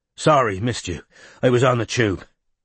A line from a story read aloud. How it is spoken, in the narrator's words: he said, panting